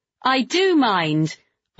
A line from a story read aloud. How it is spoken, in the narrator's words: I said loudly, trying not to show her that I'd been afraid, that I was still, stupidly, ridiculously afraid of her